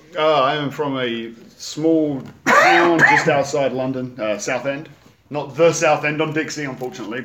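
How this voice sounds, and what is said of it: British English accent. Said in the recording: “He's British... your voice sounds funny... You've got a weird accent... You're a transplant from England.”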